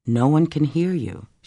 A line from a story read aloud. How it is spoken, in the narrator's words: she said calmly